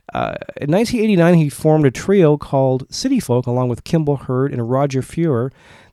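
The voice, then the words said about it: Congested voice from a cold. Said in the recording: “if you can't tell, I have a cold”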